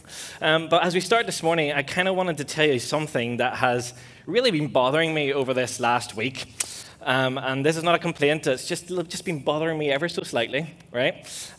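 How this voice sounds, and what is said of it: Northern Irish accent. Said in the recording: “as you can tell from my accent, I'm not from here. I'm from Northern Ireland”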